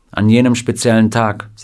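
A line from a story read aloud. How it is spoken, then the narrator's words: Plain. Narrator (German): sagte Scotty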